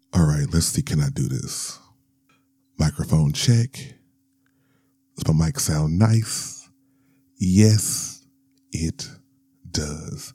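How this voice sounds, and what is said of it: Smooth, projected radio-style voice. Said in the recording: “podcast voice ... projecting the sexy, smooth podcast voice”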